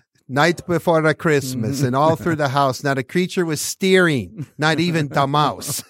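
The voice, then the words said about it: Imitated broken-English accent of Tomas Tatar. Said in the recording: “in his broken accent ... spoke with an accent and broken English”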